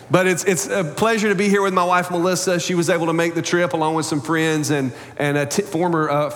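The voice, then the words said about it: American country accent. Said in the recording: “that guy with the country accent”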